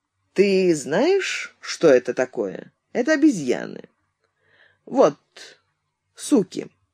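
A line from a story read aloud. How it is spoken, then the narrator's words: Unexpectedly calm explanation. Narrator (Russian): Изя неожиданно спокойным голосом объяснил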